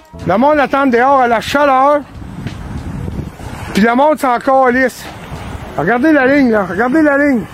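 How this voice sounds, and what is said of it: Shouting. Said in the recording (French): “Pourquoi tu cries?”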